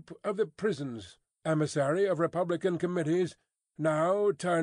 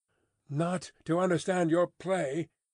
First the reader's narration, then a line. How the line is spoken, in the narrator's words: returned the spy, somewhat uneasily